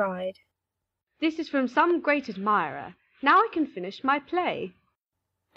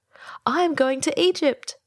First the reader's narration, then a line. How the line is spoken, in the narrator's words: cried the swallow